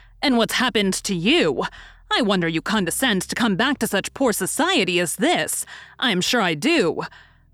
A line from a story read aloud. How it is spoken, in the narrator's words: cried